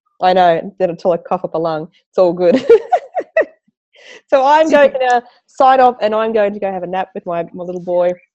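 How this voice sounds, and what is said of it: Husky, hoarse voice. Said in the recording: “my husky voice ... But sexy husky voice going on.”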